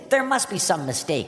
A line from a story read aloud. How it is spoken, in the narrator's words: Psyche cried